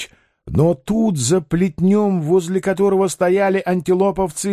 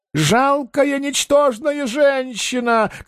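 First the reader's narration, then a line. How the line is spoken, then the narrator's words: Angry shouting. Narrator (Russian): кричал Паниковский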